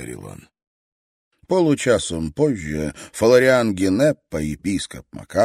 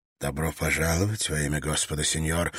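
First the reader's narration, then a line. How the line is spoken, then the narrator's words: Soft reply, bishop. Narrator (Russian): мягко ответил епископ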